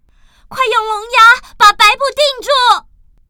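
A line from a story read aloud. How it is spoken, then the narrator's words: Loud shouting. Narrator (Chinese): 白姑娘大声喊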